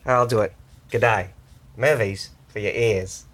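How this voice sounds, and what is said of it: Bad put-on Australian accent. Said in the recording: “My Australian accent. ... Why are you so terrible at the accent?”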